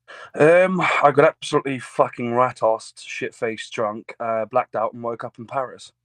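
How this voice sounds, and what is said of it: English accent. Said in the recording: “I love your accent.”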